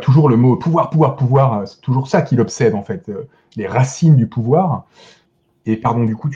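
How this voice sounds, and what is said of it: Usual voice. Nothing is said of it.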